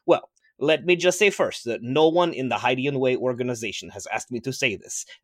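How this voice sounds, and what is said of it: Character with distinctive attractive accent. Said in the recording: “his unique and extremely attractive accent ... My accent is genetic”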